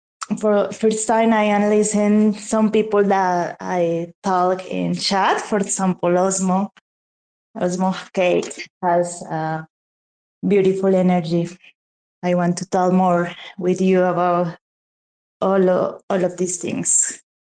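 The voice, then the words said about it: Speaks English with an accent. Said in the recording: “I love your accent. It's absolutely wonderful.”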